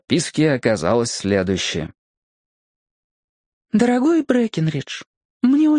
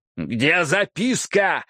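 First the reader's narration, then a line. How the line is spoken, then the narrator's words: Wild roaring voice. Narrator (Russian): взревел я дурным голосом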